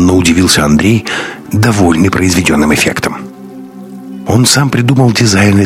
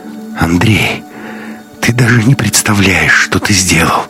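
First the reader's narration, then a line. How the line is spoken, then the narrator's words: Sobbing whisper, young woman. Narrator (Russian): всхлипывая, прошептала девушка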